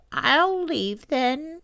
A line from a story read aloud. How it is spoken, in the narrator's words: she said, sadly